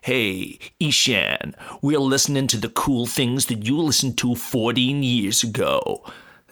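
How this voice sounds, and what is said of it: Imitates a radio DJ voice. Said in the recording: “That was my impression of ... that's the voice that he, I think everyone has the same DJ.”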